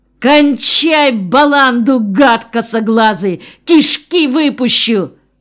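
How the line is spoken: Terrified yell. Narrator (Russian): Бебу охватил дикий страх, и потому он заорал

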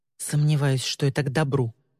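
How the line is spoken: Whispered under breath. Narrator (Russian): прошептала Ли себе под нос

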